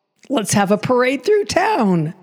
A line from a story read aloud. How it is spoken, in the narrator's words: shouted Frosty